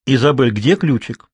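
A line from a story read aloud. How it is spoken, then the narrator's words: Stern elderly woman. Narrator (Russian): строго переспросила бабушка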